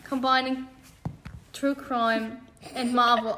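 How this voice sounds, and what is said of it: Speaks with a British accent. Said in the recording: “I don't know why that was so British.”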